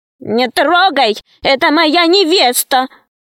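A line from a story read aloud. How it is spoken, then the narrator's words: Shout. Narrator (Russian): закричал Веня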